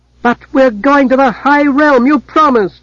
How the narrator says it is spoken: Bane cried

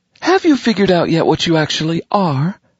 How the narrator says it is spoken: she added sweetly

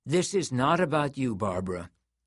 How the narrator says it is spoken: Xanthi said in a gentler tone

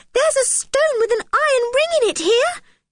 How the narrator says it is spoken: yelled Anne excitedly

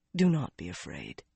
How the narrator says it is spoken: he said softly

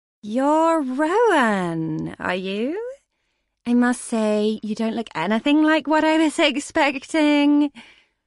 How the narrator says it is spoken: her voice came out like a drawl

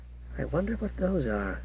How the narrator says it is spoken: he muttered

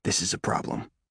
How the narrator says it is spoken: I whisper

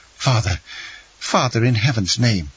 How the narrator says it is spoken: exclaimed the young man

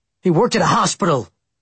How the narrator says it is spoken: I blurted out angrily

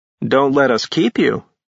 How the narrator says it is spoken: Ash said dryly

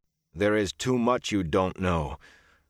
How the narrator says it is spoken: Perrin muttered

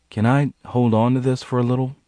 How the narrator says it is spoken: he asked hesitantly

